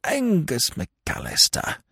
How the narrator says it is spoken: observed Lord Emsworth bitterly

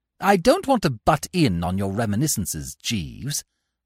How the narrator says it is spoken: I said coldly

